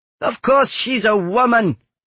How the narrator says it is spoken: Anezka shouted at them

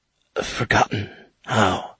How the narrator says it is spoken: whispered

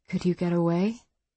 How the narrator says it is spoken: Roberta whispered

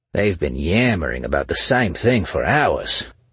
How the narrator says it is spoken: a man with an Australian accent complained from a few seats down

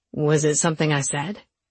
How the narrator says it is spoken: Luke asked, wisely keeping his voice low

